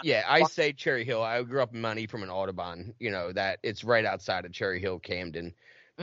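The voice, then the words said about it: Philadelphia accent. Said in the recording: “my accent is Philly ... Your accent is like a Philly accent.”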